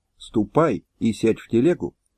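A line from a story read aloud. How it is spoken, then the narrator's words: Whisper. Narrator (Russian): Шляхтич шепнул дочери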